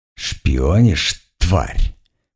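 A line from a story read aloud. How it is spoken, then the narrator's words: Near hiss. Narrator (Russian): почти прошипела она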